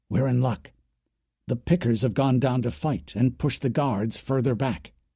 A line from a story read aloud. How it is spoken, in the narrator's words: Blue Flow whispered